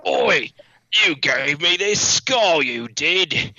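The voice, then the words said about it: Put-on Cockney accent. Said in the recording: “speak with a Cockney accent? Are they all from like Southeast London? ... waiting to do impressions”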